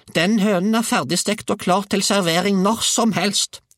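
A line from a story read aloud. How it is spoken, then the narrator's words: Grandmother shrieking. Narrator (Norwegian): hylte bestemor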